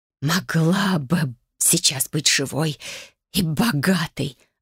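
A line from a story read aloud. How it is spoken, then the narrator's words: Spiteful hiss. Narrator (Russian): злобно шипела она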